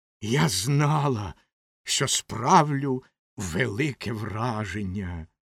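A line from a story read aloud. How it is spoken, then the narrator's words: Hissing. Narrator (Ukrainian): прошипіла Ракета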